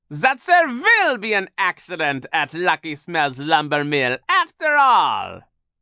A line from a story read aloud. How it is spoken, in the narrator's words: said, cackling